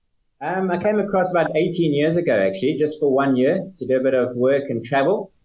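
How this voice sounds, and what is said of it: South African accent. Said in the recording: “that's not a British accent. That's a South African accent that's been transplanted into London.”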